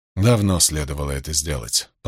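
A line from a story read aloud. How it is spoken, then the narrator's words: Muttered to himself. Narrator (Russian): пробормотал Ранд, явно самому себе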